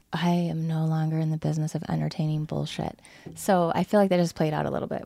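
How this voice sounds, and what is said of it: Congested voice from a cold. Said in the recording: “I have a head cold right now, so my voice is different”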